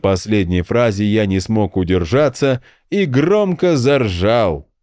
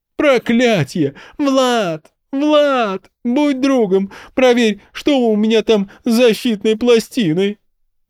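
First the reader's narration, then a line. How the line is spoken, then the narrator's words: Pleading. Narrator (Russian): взмолился шаман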